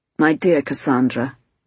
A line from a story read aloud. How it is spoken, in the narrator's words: he said in a cutting voice he very seldom uses